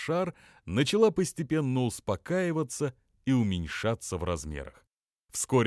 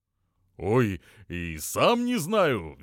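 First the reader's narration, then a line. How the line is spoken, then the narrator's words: Cheerful excuse. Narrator (Russian): весело оправдывался тот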